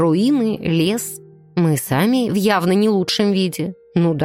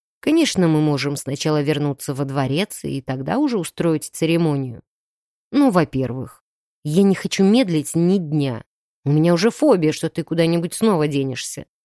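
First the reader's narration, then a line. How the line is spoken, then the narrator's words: Grim smirk. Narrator (Russian): мрачно усмехнулся Андар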